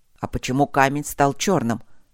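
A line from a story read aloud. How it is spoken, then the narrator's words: Tense, angry question. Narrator (Russian): напряженный и даже зло спросил Гроул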